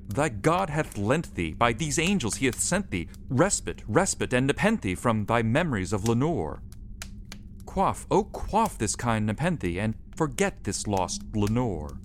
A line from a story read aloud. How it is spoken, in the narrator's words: I cried